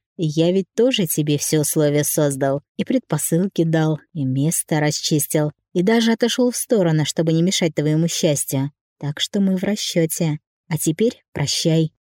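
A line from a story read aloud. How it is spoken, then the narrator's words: Quiet laughing murmur. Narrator (Russian): все еще смеясь, тихо сказала на ухо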